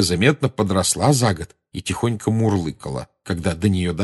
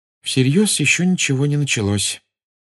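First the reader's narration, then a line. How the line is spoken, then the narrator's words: Gloomy sigh. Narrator (Russian): мрачно вздохнула Гермиона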